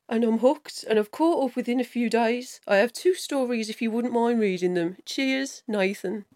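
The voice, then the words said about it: Put-on Birmingham accent. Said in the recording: “read that top paragraph out as well in a Birmingham accent”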